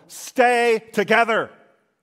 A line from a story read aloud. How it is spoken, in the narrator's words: Maximus shouts out once more